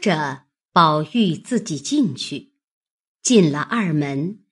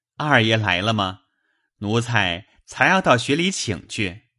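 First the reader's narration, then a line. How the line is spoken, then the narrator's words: Smiling, laughing. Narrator (Chinese): 李贵，笑道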